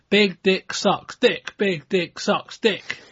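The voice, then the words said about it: Imitated chanting wrestling crowd. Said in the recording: “my impression of the, uh, ECW, uh, ECW fan base”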